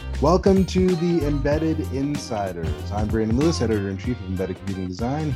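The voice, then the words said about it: Weird put-on intro voice. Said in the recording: “It's a weird voice you're using this time. Is that your intro voice?”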